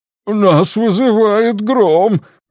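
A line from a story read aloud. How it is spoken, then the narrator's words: Groaned. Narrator (Russian): простонал второй пилот Гутана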